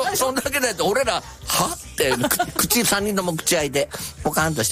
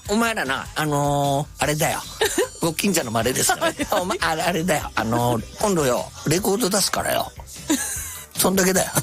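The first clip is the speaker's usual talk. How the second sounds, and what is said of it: Imitates another person's voice. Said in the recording (Japanese): “今、モノマネ。... モノマネです。... 金ちゃんの。... 一応、モノマネなんで”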